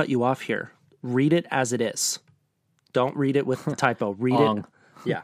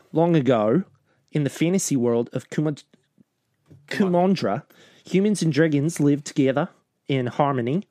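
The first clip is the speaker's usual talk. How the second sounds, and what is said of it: Put-on Australian accent. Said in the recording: “I'm going to read it in my Australian accent.”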